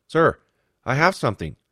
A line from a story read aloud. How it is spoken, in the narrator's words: he blurted out